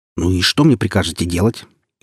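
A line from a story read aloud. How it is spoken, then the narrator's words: Irritated question. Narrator (Russian): раздраженно поинтересовался я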